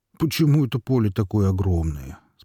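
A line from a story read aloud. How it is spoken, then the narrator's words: Plain question. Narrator (Russian): спросил Горемыка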